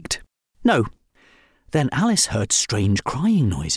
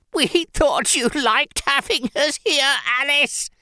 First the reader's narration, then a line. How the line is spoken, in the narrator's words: sobbed the Scaries